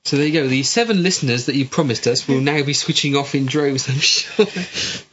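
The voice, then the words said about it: West Country English accent. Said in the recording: “I've got a West Country accent because I'm from the West Country.”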